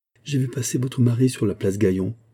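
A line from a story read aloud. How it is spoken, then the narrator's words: Murmured. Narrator (French): murmura Denise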